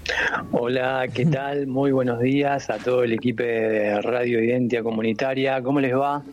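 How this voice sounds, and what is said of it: Worn, hoarse voice. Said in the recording (Spanish): “tiene voz de locutor ... tengo la voz gastada ... Ronca”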